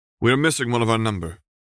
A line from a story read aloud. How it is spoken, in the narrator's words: said Hideki Minamata